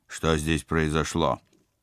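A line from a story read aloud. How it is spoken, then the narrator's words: Rude question. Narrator (Russian): спецагент грубо поинтересовался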